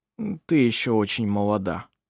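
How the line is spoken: Mumbling, trying to sound convincing. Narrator (Russian): пробормотал Ировар, стараясь, чтобы голос его звучал убедительно

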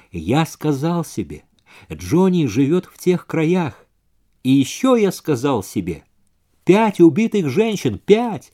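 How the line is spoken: Embarrassed, slow, halting. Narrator (Russian): Вейзек был явно смущен, он говорил медленно, с остановками

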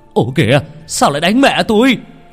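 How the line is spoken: Alarmed shout. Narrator (Vietnamese): Ông Thành la lên

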